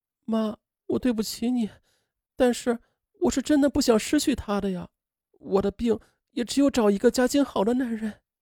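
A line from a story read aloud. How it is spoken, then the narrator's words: Crying. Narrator (Chinese): 他哭着说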